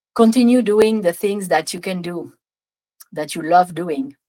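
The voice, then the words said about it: Strong French accent. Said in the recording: “That was a lot of French accent there.”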